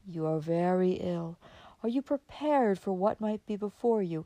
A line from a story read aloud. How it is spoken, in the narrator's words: say solemnly